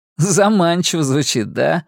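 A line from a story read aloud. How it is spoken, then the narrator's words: Laughing. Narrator (Russian): рассмеялся Роланд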